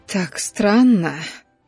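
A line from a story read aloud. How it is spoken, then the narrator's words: Quiet, intimate. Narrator (Russian): тихо говорила Ребекка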